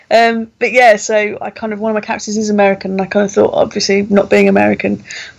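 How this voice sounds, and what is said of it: English accent from Kent. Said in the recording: “one of my characters in it is from the US and I'm obviously not I don't know if you can tell ... you said you lived in Kent ... I love your accent”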